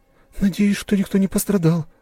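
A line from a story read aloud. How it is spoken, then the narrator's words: Breathy exhale. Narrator (Russian): выдохнула Анастасия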